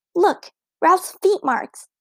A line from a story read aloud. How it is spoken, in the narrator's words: exclaimed Ramona